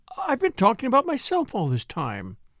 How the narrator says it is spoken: exclaimed

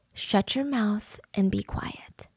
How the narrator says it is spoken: he just whispered

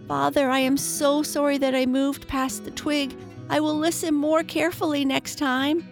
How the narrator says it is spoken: cried

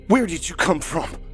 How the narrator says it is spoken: Dave shouted in the pale and hairless creature's face

